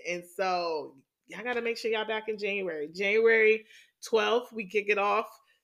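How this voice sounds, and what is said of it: Excited, energetic voice. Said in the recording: “if y'all can't tell by my voice, y'all, I am so excited. I am so excited.”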